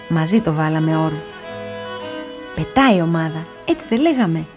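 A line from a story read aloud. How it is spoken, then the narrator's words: Brother's smiling tone. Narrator (Greek): του χαμογέλωσε ο αδελφός του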